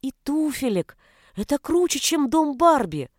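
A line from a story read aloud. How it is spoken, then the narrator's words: Exclamation. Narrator (Russian): воскликнула она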